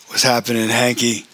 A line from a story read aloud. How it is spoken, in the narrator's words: said TJ in his gritty, comical voice